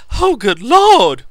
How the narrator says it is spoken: she cried

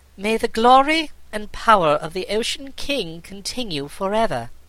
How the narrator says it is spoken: Aquarain said in a clear voice

